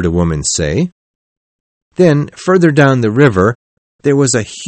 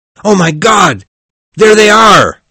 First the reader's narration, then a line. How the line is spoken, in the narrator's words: a voice cried out